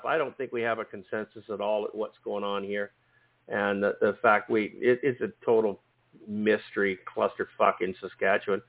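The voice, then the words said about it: Strained, fading voice. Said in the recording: “I'm losing my voice, so I'm not going to be here much longer”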